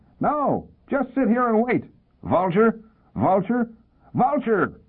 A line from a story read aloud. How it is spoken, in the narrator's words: The wild one screamed